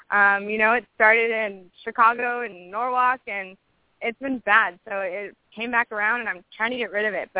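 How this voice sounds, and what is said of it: Voice sounds off, unwell. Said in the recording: “I have been sick this entire summer ... that's why my voice is kind of off ... what's wrong with your voice?”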